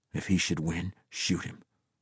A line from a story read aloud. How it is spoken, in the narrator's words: the scorpion muttered to Yusef out of the side of his mouth